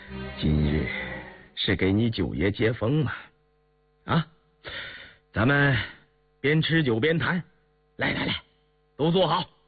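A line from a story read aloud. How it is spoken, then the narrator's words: Forced laugh, sorrowful. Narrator (Chinese): 允四脸上也带着凄容，口里却笑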